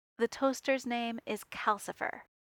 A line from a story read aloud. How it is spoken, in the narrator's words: he said, his tone brooking no argument